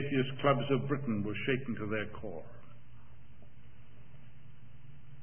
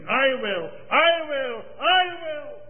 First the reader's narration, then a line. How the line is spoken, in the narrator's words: 500 men, their faces wept to their tears, shouting from all parts of the building